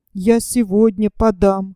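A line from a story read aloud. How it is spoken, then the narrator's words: Dejected voice. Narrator (Russian): упавшим голосом сказал Валька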